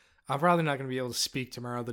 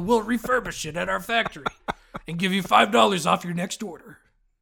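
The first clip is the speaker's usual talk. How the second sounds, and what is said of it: Wild strained character voice. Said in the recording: “The damage I'm doing to my voice. It's been so long since I've tried to do a wild voice.”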